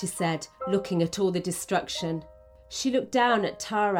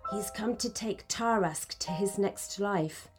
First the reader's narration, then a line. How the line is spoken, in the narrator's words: whispered Merlin